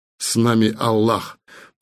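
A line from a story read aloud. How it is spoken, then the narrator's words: Agitated mutter. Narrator (Russian): пробормотал чем-то взволнованный Селим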